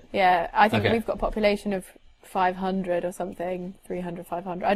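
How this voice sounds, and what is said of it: Posh English accent. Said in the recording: “I just have quite a posh accent.”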